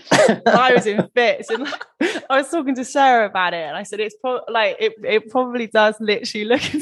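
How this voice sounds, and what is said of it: Bristolian accent with Cockney tinge. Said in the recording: “I've got like such a weird accent because I'm Bristolian ... I've got this like weird kind of like Cockney Bristolian vibe going on sometimes”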